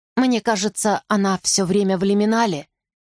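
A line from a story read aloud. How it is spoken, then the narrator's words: Plain. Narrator (Russian): наконец сказала я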